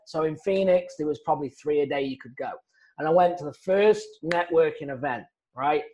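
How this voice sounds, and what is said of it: Noticeable foreign accent. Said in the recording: “if I don't stand out, you know, like a sore thumb with my accent”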